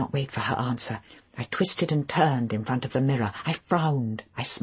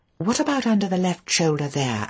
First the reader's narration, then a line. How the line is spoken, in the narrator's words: I said anxiously